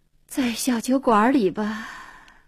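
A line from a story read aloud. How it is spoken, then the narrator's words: Sighing. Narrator (Chinese): 黄英叹口气说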